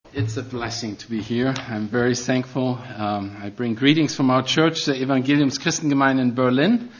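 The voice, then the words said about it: Noticeable foreign accent. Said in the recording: “Yes, I have an accent. ... I can't hide it. ... I had such a nice accent.”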